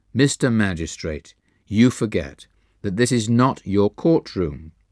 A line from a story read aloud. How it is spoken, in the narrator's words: Master replied evenly